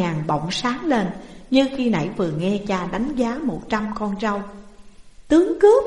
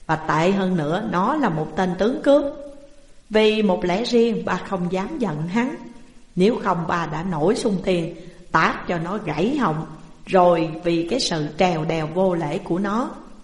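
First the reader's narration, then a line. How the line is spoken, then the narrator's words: Laughing loudly. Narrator (Vietnamese): Tám Huỳnh lại cười lớn rồi nói tiếp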